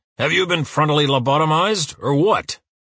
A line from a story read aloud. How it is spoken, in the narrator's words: Uwe roars